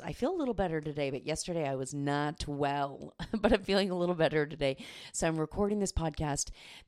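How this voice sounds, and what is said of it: Sick-sounding voice. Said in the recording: “I'm a little bit under the weather, if you can tell in my voice.”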